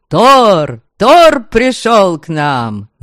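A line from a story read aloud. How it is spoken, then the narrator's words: Crowd yelling. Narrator (Russian): Завопили вокруг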